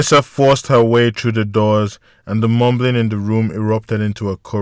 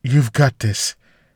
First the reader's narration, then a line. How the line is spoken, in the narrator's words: He forced a laugh and responded in a shaky voice